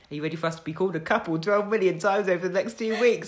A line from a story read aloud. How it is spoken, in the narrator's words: I laughed